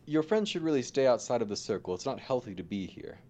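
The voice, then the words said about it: Silly character voice. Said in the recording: “He has a stupid voice.”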